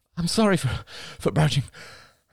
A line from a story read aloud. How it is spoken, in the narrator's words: panted Crystal